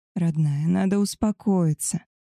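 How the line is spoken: Soft, gentle. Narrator (Russian): наконец мягко сказал Альфа

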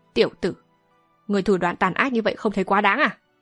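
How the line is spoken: Old man's sneer. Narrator (Vietnamese): Lão nhân mặt dài cười khẩy nói

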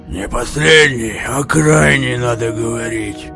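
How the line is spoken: Gruff mutter. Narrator (Russian): буркнул Лев Давыдович

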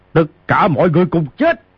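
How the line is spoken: Thunderous roar. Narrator (Vietnamese): Ngao Bái gầm lên như sấm quát

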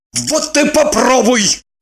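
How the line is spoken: Barked. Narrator (Russian): Рявкнул Борис

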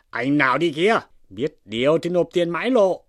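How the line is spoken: Big man shouting. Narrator (Vietnamese): một đại hán quát lên rằng

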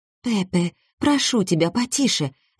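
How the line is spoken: Frightened. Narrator (Russian): говорила блондинка, испуганно

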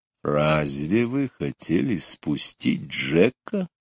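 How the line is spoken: Menacing voice question. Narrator (Russian): страшным голосом спросил он

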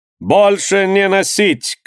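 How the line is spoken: Shouting. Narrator (Russian): крикнул мастер

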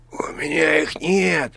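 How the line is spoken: Hoarse. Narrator (Russian): прохрипел правитель

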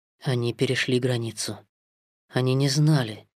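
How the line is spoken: Whisper. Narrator (Russian): прошептал Маугли

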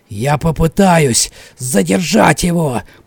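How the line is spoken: Hoarse old man's rasp. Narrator (Russian): прохрипел старик

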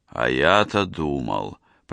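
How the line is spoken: Professor muttered. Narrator (Russian): пробормотал профессор

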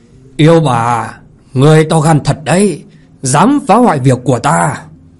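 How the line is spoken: Old man's angry roar. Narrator (Vietnamese): Thiên quạt lão nhân giận dữ mà gầm to

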